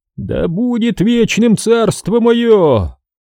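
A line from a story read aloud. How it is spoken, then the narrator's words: Thunderous laughter. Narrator (Russian): громом захохотал сатана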